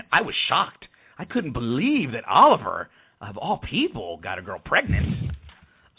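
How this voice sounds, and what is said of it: Sarcastic mock-surprised delivery. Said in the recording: “You're being sarcastic. ... Thank you. Yes, I am. ... I was being sarcastic”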